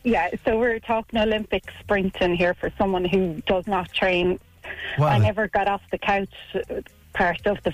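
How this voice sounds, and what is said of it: Out of breath, breathless speech. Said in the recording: “Sorry, I'm just out of breath.”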